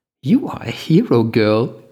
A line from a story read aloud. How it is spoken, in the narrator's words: Linny giggled